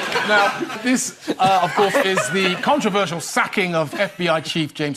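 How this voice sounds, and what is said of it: Usual voice. Nothing is said of it.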